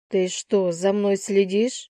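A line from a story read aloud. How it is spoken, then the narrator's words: Growled. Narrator (Russian): Прорычала я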